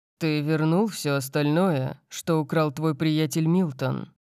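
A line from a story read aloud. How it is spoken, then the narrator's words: Grim question. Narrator (Russian): спросил я мрачным голосом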